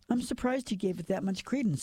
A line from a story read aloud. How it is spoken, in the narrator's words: said Dickie